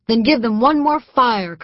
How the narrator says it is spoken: Colonel Andrew Pickens yelled to the South Carolina volunteers

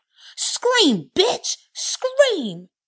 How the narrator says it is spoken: Regina shouted

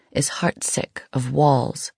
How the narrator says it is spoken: crooned, all doleful and lispy

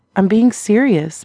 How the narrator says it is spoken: Meg exclaimed

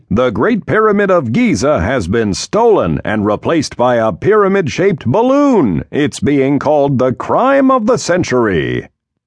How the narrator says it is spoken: shouts the newsman on TV

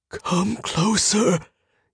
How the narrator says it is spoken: he whispered

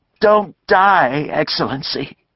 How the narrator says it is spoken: Fortunato bawled

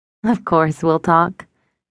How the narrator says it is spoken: laughed

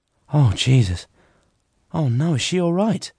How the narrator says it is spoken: Molly gasped

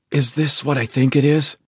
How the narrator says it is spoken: whispered

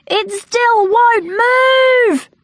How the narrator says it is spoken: they cried

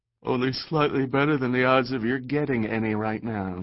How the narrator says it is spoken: says with a yawn

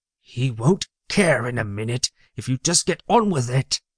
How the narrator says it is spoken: Loki hissed in his ear

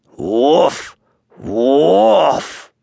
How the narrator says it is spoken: said he, in his deepest, most grumbly, rumbly voice

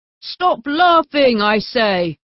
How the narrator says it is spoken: he shouted menacingly

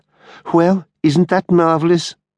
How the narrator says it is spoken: exclaimed Halliwell

